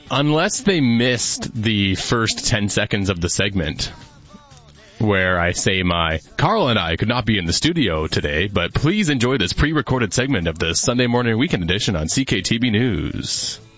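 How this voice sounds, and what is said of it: Polished radio announcer voice. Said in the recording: “That's really good. You're such a good radio voice.”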